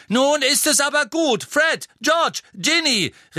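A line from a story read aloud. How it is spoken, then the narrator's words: Calling out. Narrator (German): rief Mrs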